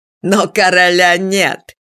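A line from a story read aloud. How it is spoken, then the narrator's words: Cheeky chuckle. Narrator (Russian): дерзко хохотнул Унатур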